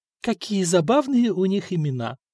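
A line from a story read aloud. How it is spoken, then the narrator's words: Purring. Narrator (Russian): промурлыкала императрица Мартина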